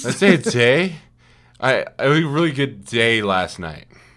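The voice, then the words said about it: Imitates a drunk person's voice. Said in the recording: “That wasn't high, that was drunk ... my impression. I was going for drunk”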